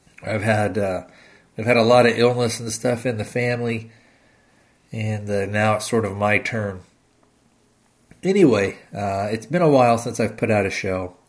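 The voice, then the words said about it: Slightly off, unwell-sounding voice. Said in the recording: “my voice is maybe a little off.”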